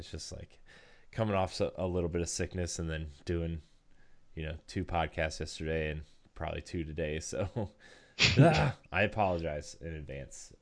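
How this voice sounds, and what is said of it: Hoarse, sore-throated voice. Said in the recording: “if I sound like my throat is like really sore”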